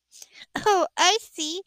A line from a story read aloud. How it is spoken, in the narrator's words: sighed